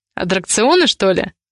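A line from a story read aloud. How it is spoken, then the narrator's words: Suspicious question. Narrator (Russian): с подозрением уточнил Ивар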